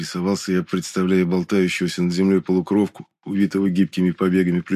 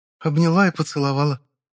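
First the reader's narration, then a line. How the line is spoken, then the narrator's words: Sad, smiling. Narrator (Russian): грустно улыбнулась Гесперия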